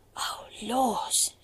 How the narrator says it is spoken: she gasped

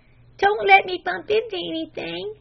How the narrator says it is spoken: begged the blindfolded Flame

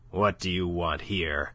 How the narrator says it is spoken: growled Monsieur de Kercadiou

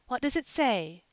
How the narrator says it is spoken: gasped Mrs

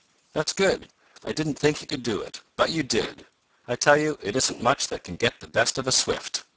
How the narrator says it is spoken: exclaimed the aged man proudly

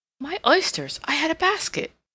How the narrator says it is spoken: exclaimed

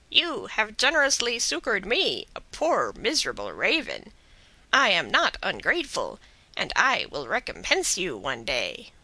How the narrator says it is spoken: screeched he, though not in the sweetest voice in the world

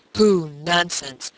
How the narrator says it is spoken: exclaimed his uncle

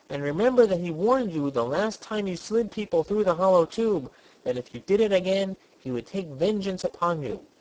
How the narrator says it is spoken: he pleaded

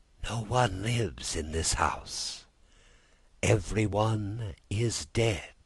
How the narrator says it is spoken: With a voice so weak it could hardly be heard, she whispered

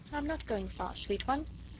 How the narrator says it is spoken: said the young man gently

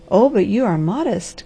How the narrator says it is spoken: cried the harvester

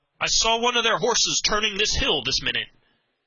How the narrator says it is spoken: on reaching the height he cried aloud

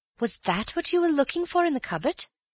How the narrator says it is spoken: said Bill eagerly

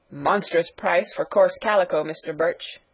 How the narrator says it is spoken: grumbled Caesar

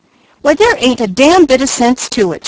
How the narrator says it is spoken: she cried

